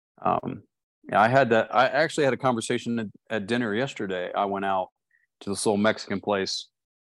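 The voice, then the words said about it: Regional accent. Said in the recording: “my little Ginzer accent”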